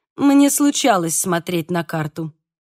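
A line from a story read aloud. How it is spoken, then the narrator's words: Dry interruption. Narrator (Russian): сухо прервал Мануэль Эскаланте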